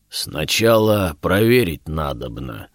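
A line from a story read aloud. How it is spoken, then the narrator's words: Deep guttural bass. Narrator (Russian): утробно пробасил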